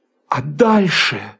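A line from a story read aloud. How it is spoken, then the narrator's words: Exclaiming. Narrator (Russian): воскликнул я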